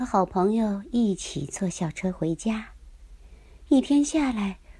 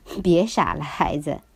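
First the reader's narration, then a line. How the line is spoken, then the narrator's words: Laughing teacher. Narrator (Chinese): 多布森老师笑着说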